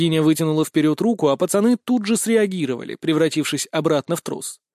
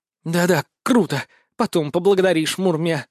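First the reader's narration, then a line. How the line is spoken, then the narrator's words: Irritated snort. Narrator (Russian): раздраженно фыркнула Устинья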